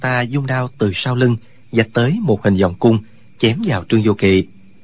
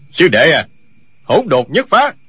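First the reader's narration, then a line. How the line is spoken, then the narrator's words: Old man shouting. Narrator (Vietnamese): Lão nhân lùng quát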